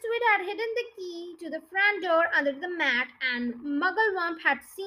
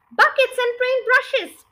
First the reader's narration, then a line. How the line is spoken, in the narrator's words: cried Muggle-Wump